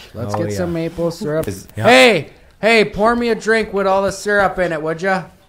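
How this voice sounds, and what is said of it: Put-on northern Michigan accent. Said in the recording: “You can do the Michigan northern accent.”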